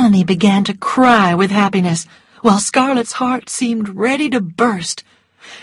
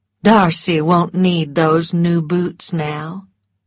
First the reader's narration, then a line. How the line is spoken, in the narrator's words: she said